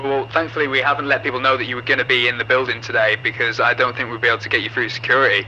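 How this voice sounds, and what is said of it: British accent. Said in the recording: “I love the accent, man. I love your accent ... Very attractive women you have over here with the accent.”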